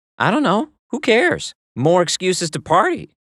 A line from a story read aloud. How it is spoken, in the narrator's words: said in her bubbly voice, as if the answer was obvious